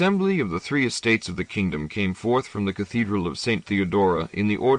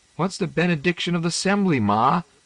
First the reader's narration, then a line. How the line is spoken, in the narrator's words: the gap-toothed daughter squealed